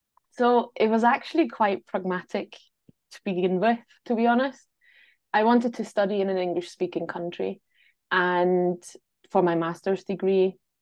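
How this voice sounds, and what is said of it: Non-native speaker with Glasgow Scottish accent. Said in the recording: “You sound like you've got a Scottish accent... They can hear the Scottish accent, but they can also hear that it's not a native accent... muddled the Glasgow accent into how I speak”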